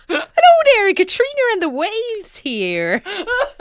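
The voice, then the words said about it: Put-on Irish accent. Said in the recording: “I don't know why I did it in an Irish accent.”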